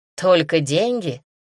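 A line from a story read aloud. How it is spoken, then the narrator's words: Knowing snort. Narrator (Russian): понимающе хмыкнула Эллен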